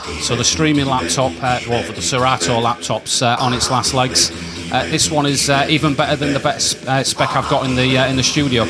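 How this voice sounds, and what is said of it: Congested, chesty cold-sounding voice. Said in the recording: “as you can probably tell in my voice, I've still got quite a chesty cough and a bad cold”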